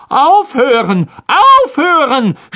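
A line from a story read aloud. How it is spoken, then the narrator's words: Shouting. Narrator (German): schrie Lockhart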